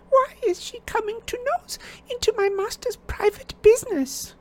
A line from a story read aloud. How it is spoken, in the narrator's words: sobbed Winky